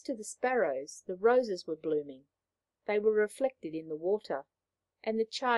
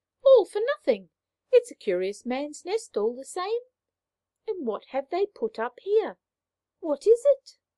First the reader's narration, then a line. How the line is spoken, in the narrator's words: The third sparrow, exclaiming